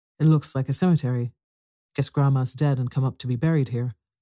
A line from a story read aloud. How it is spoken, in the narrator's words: said Saul in a solemn tone